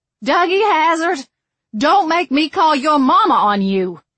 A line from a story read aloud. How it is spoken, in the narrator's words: Tootie shouting